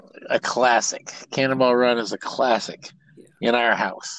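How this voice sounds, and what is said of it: Usual voice. Nothing is said of it.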